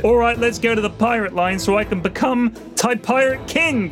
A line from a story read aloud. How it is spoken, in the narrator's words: Bodega yelled